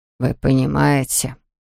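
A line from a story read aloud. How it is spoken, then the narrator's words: Muffled male voice. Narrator (Russian): сказал мужчина приглушенным голосом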